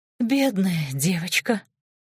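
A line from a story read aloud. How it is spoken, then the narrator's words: Sighing. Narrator (Russian): вздохнула Нинель Феофановна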